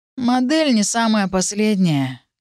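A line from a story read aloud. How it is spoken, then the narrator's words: Lazy reply. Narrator (Russian): лениво отозвался второй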